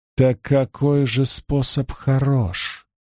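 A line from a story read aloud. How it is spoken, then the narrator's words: Barely audible question. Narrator (Russian): Едва слышно спросила она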